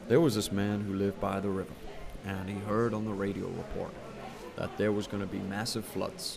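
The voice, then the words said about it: Put-on American accent. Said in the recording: “I'm going to do it in American accent because it just sounds awesome.”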